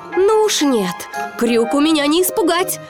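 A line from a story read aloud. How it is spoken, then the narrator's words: Shouting. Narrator (Russian): крикнул Питер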